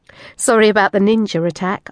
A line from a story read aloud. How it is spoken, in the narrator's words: giggled